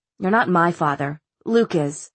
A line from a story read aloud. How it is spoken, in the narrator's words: said Clary, almost wearily